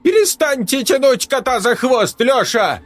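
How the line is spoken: Sudden falsetto shout. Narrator (Russian): Неожиданно фальцетом выкрикнул Ламберг

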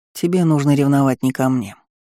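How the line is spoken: Calm. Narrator (Russian): спокойно сообщил Ивард

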